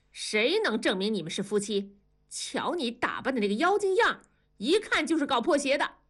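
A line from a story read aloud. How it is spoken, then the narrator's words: Young leader, stern angry shout. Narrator (Chinese): 年轻的造反派头头板着脸怒喝道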